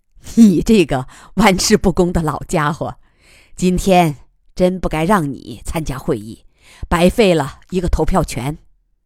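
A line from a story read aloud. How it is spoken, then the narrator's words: Laughing, scolding. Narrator (Chinese): 鸡笑骂道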